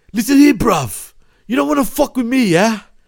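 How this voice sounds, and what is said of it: Breathy imitated UK accent. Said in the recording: “That's how he talks ... try to take away the breath from your lungs while you're speaking ... UK is accent?”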